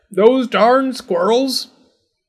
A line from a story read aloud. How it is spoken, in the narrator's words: he shook his old man fist and yelled